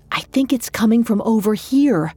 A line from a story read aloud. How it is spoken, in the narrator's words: Georgia whispered